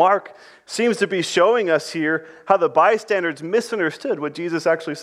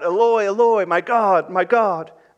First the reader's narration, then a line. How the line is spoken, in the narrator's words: When he cried out